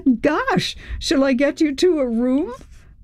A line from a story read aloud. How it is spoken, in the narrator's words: Chris laughed